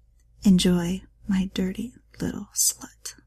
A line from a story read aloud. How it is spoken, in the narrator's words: he whispered